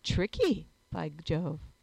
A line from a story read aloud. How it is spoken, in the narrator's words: I exclaimed